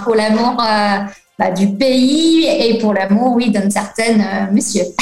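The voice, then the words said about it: English accent speaking French. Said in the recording (French): “tu aies gardé cet accent anglais”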